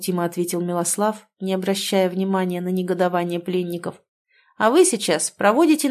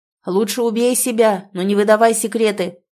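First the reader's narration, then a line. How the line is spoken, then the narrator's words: Shouting. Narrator (Russian): крикнул девице один из связанных воинов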